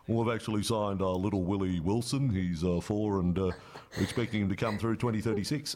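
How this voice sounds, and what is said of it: Imitates another person's voice, poorly. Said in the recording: “That's a really bad Wayne impersonation.”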